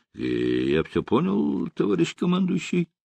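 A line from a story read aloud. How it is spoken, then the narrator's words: Muffled, hollow voice. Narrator (Russian): сказал глухим голосом Аривадзе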